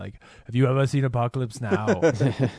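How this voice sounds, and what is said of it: Imitates another person's voice. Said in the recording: “I don't know why I did my Schwarzenegger voice.”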